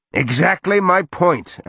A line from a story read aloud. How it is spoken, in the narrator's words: Arik shouted